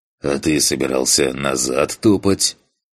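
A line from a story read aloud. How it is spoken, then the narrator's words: Dismissive snort. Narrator (Russian): Хмыкнул, не придав этому сообщению особого значения, Фантик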